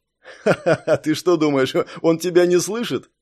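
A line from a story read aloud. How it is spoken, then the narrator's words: Pleased laughter. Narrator (Russian): Довольно рассмеялся Раст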